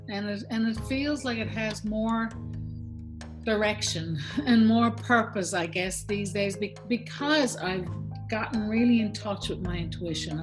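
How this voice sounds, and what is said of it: Irish-sounding Newfoundland accent, dropped THs. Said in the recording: “Excuse the lack of THs here. It is my Irish accent... I was going to say it sounds Irish... A lot of Newfoundlanders sound Irish.”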